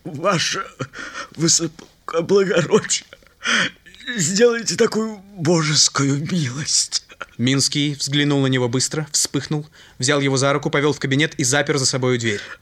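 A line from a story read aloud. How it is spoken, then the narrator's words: Tearful trembling voice. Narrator (Russian): Слезы навернулись на глазах, дрожащим голосом произнес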